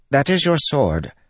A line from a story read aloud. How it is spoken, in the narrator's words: Pattern said in a perky voice